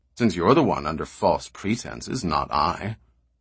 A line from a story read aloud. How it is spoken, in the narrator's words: said the stranger coolly